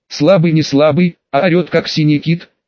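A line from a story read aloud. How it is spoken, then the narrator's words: Louder laughter. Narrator (Russian): еще громче рассмеялся он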